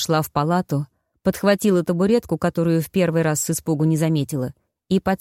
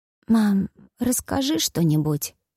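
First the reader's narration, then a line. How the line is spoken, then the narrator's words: Hoarse request. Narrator (Russian): сипло попросил он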